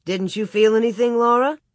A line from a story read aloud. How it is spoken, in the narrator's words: Jim only laughed and asked